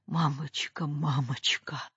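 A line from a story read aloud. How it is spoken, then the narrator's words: Muffled mumbling with moans. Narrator (Russian): глухо бормотала, пристанывала Катя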